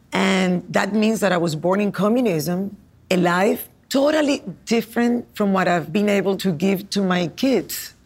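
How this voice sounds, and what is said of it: Cuban accent. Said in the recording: “this accent is real ... This accent is real. This is Cuban on the rocks.”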